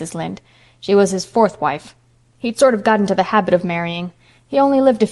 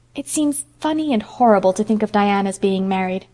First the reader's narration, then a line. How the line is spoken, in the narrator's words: sighed Anne